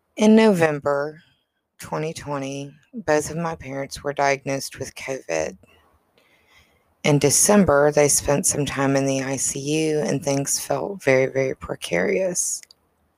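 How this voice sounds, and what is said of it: Low, sad, depressed-sounding voice. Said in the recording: “if you can hear the depression in my voice, your ears work well”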